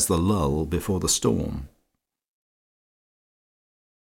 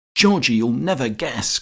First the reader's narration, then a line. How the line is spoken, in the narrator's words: cried Hermy